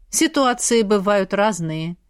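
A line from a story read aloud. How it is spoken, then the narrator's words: Stern reply. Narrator (Russian): строго ответил Еминаэль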